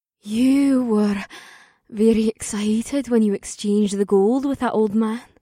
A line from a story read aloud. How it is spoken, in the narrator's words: she purred in my ear